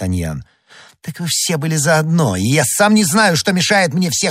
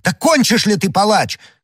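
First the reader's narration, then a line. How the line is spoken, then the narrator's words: Shouted. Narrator (Russian): крикнул Д'Артаньян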